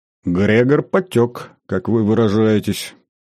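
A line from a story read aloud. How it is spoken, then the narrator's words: Gloomy. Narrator (Russian): мрачно ответил Легир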